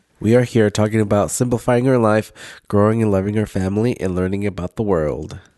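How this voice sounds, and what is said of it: Sick, nasal voice. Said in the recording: “I sound different... A little bit... my sick voice... it sounds very nasally. Nasally.”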